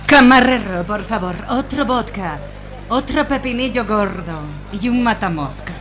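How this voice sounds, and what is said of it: Russian accent in Spanish. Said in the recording (Spanish): “esa parece extranjera ... Por el acento, yo diría que es rusa.”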